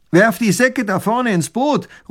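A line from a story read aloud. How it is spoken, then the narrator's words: Robber calling out. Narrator (German): ruft der Räuber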